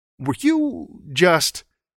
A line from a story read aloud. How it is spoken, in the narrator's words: he stammered